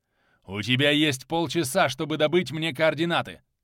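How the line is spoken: Madman speaking angrily. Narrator (Russian): зло проговорил сумасшедший

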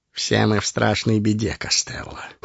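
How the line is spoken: Cold. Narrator (Russian): холодно сказал Ларт

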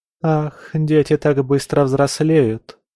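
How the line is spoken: Sigh. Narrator (Russian): вздохнула она

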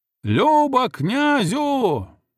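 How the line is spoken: Ecstatic shout from crowd. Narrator (Russian): восторженно закричал кто-то из толпы

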